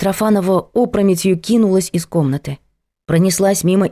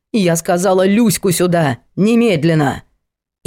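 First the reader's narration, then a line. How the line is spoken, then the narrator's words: Menacing bark. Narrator (Russian): балерина уже обрела присутствие духа и грозно рявкнула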